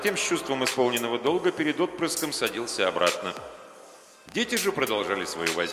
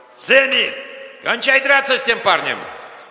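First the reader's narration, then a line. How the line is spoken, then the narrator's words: Shouting. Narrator (Russian): орал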